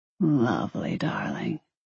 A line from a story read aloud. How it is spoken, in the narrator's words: he murmured